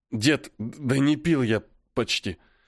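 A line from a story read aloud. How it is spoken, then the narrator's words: Hoarse, forced out. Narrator (Russian): хрипло выдавил Андрей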